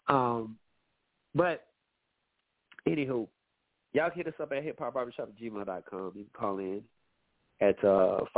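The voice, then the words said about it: Slightly nasal, congested voice. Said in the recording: “I'm a little nasally. ... I know y'all can hear it in my voice, but it's allergy season for me. ... I'll be sounding this, you know, a little nasally”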